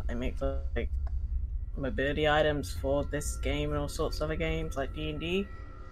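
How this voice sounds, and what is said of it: Irish accent. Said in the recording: “Irish in my accent”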